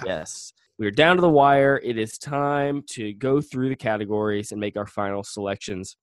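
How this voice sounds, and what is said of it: Slightly husky voice. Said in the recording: “think my voice sounds a little different, that's because it is. I have a cold, ... a little huskier voice than normal”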